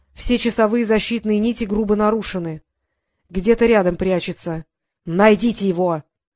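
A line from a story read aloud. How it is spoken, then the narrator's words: Sudden bark. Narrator (Russian): вдруг рявкнул он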